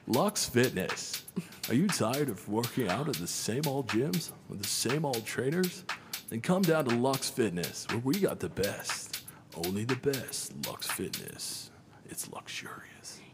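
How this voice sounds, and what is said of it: Infomercial announcer voice. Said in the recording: “put on my voice ... You sound like one of those, what are those commercials where they sell, pans and knives and... ... you sound like that guy”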